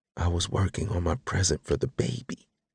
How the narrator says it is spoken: I whispered into her ear

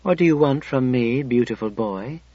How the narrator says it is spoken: I asked softly

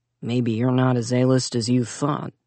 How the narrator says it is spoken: Zack mumbled

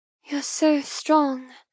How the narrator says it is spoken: murmur appreciatively

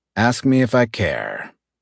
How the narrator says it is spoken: I answered dryly

